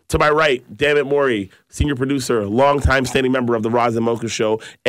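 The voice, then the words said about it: Sick, under-the-weather voice. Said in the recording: “Pardon my voice. A little under the weather.”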